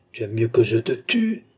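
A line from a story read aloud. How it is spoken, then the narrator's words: Desperate cry. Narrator (French): s'écria Philippe, foudragé de désespoir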